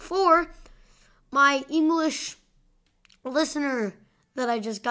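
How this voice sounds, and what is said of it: Usual voice. Nothing is said of it.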